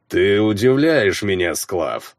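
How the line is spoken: Booming rumble. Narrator (Russian): прогудел Рёрик

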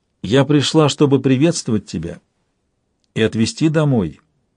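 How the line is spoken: Plain. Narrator (Russian): сказала Тенталья

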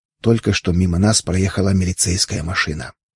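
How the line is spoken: Whisper. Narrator (Russian): прошептав

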